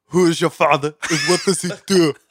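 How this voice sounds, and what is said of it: Arnold Schwarzenegger impression. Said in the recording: “doing a Schwarzenegger impersonation ... Give us your favorite Schwarzenegger line”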